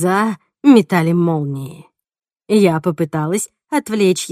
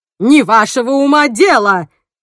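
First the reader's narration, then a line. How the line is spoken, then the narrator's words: Roar. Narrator (Russian): взревела Джейн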